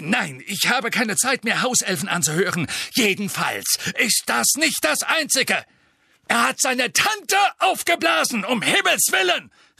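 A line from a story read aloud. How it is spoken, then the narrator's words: Exclamation. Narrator (German): rief Fatsch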